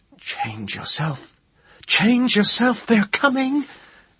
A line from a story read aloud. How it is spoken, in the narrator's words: Seret shrieked